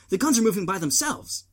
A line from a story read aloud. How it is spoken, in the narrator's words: Jane said, frantically